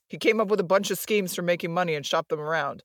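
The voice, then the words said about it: Gruff cop character voice. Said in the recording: “I should do my cop voice.”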